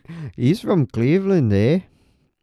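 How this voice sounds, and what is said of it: Put-on Canadian accent. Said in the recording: “Was a Canadian. ... That was Canadian Hispanic.”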